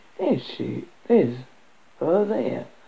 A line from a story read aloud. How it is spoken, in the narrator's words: murmured Graham wistfully